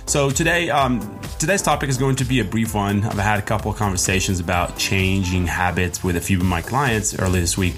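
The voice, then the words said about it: Voice a little messed up. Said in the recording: “my voice is still a little bit messed up”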